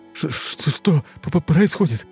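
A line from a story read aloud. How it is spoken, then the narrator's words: Stammering, frightened question. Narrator (Russian): Заикаясь, спрашивал мужчина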